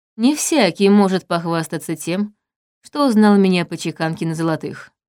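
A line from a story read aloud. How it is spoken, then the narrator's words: Plain. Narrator (Russian): сказал он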